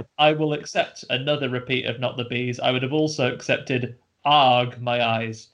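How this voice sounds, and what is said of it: Usual voice. Nothing is said of it.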